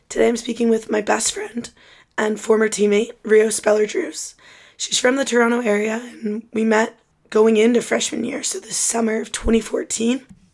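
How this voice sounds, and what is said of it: Hoarse, fading voice. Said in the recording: “if you can't tell, I am losing my voice”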